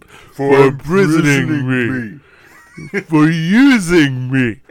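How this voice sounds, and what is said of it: Sylvester Stallone impression. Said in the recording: “what George Clooney does his Sylvester Stallone impression”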